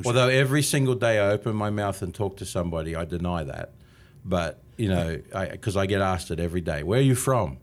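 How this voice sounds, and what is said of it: Australian accent. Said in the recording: “27 and a half years here from Australia. And apparently, I haven't lost my accent yet. ... I would tend to agree.”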